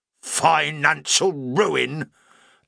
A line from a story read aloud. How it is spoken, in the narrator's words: echoed Badju indignantly